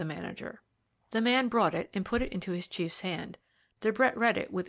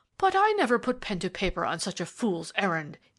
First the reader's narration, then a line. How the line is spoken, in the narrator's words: he cried